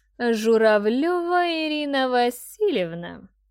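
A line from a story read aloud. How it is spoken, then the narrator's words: Singsong, drawn-out. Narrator (Russian): нараспев и тягуче произнесла она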